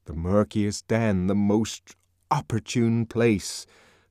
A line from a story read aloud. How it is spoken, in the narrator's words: the voice of conscience thundered poetically